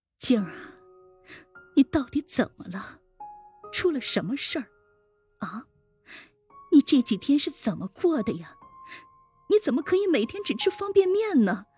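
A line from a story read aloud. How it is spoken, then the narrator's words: Tearful soft. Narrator (Chinese): 她也跟着哭了，轻声念道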